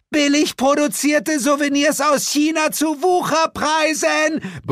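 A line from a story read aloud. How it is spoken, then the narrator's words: Roar. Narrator (German): brüllte sie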